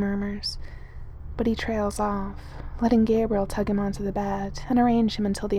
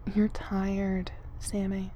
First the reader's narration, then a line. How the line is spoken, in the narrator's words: he says quietly